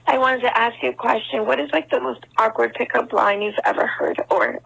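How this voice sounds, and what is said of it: Sick, rough-sounding voice. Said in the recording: “She was super sick when she did it ... I'm super sick ... Sorry, my voice sounds terrible. I'm not feeling well”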